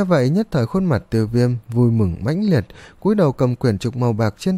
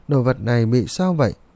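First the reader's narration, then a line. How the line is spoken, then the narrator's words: Alarmed, hurried question. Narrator (Vietnamese): sắc mặt Tiêu Viêm khẽ biến, vội vàng hỏi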